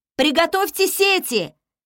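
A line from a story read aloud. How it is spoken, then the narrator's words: Attempted shout. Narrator (Russian): попыталась я крикнуть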